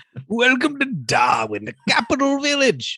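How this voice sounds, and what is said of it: Put-on Darwin accent, drunk-sounding. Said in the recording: “I don't know the accent that was. ... that's how they sound in Darwin. ... Drunk. ... Like kind of like drunk prospectors.”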